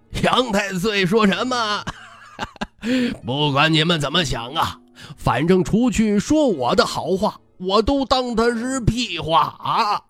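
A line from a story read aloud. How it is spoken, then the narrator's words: Laughing heartily. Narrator (Chinese): 徐骁哈哈大笑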